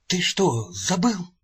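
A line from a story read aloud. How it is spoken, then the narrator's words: Whisper. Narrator (Russian): зашептал он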